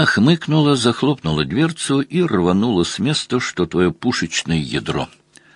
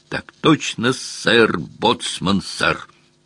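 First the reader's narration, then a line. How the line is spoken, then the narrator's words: Quiet bark. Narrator (Russian): Тихонько рявкнул Мазур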